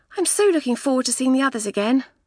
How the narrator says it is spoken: Felicity said

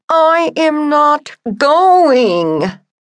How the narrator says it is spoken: I screamed

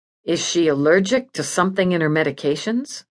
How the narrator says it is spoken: I asked

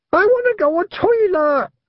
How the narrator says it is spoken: screamed Wentworth

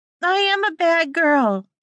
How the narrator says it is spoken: she screamed out

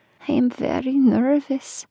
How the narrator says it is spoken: Nevada added in a small voice

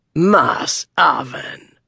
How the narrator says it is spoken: growled the first mate, Strauss, in disbelief

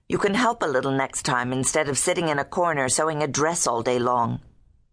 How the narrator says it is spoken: Susanna snapped, tart from sleepiness

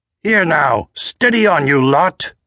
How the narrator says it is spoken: the officer barked

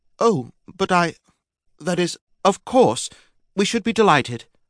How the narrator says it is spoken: faltered Lady Helen

